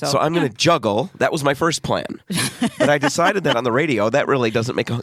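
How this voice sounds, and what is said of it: Hoarse, strained voice. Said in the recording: “I'm losing my voice on top of it all ... the reason you're losing your voice. We assume it's a sinus issue ... it's a sinus infection”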